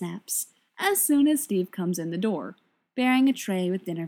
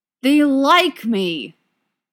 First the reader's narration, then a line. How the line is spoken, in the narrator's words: Bucky snarls at him